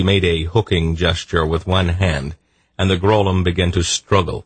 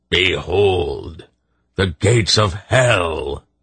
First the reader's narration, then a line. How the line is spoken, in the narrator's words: he roared